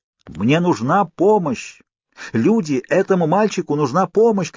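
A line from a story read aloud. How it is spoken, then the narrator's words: Shout. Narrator (Russian): крикнул я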